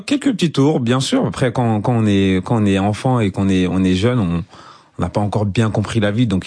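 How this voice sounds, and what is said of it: French with an Ivorian accent. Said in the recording (French): “votre accent ivoirien ... l'accent est toujours là. On peut le sentir à tout moment.”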